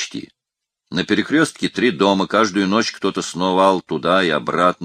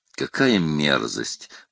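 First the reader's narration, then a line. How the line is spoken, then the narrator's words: Dazed grumble through teeth. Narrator (Russian): проворчал сквозь зубы Мишуня, с самого начала беседы находившийся в состоянии прострации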